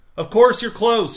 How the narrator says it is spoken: shouted Mr

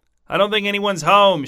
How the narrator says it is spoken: shouted Wes

